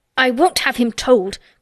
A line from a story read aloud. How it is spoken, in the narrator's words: Colin broke forth fiercely